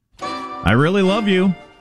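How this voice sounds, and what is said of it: Sarcastic-sounding delivery. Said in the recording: “Sounds like I'm being sarcastic.”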